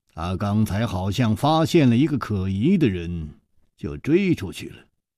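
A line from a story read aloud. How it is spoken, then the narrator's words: Calm, indifferent. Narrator (Chinese): 楚留香淡淡地说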